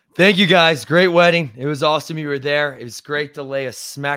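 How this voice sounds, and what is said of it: Hoarse voice. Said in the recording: “Voice is a little hoarse from the wedding, and then I went to the basketball game last night and got even more hoarse.”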